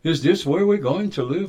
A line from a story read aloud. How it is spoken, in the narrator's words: asked the young boy excitedly